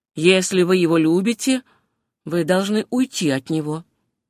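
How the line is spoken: Plain. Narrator (Russian): ответил Дремли

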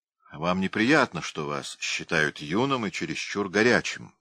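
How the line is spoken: Plain. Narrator (Russian): сказал он

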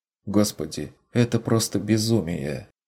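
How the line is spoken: Horrified whisper. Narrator (Russian): прошептала Мария, с ужасом взирая на происходящее вокруг

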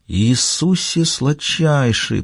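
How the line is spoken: Whisper. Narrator (Russian): прошептал он

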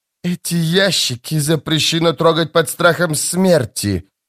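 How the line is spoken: Hiss. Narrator (Russian): прошипел казначей

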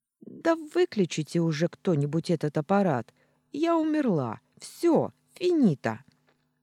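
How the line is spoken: Choking on last word. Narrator (Russian): поперхнулась последним словом

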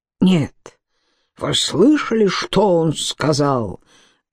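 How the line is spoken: Angry growl. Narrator (Russian): прорычал озлобленный голос

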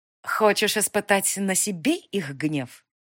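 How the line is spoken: Witch's venomous hiss. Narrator (Russian): голос ведьмы напоминал шипение ядовитой гадины

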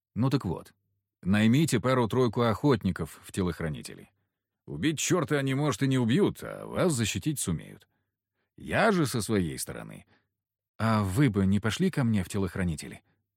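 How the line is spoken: Quick question. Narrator (Russian): быстро спросил Ползунов

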